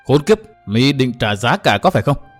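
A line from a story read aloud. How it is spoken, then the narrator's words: Angry speech. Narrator (Vietnamese): tức giận nói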